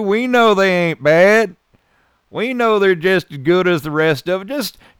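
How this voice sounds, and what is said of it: Put-on accent. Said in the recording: “This is all a put on, how I'm speaking to you right now ... I sound nothing like that”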